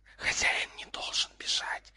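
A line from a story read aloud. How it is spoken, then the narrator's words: Three heads hissing together. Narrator (Russian): шипели все три головы одновременно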